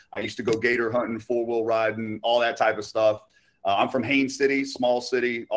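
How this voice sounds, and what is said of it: Rural Florida country accent. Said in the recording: “I'm actually from Polk County, Florida, the country. You can kind of hear that in my voice sometimes.”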